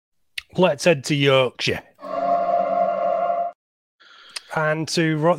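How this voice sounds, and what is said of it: Put-on Yorkshire accent. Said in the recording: “A bit of Yorkshire accent for you there. Pretty That's good.”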